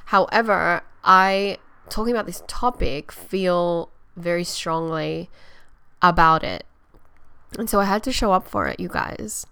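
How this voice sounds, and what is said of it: Low-energy, tired-sounding voice. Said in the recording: “today I'm feeling a little bit low energy. I don't know if you guys can hear it in my voice.”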